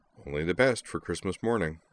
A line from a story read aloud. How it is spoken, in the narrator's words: He chuckled a little shyly and said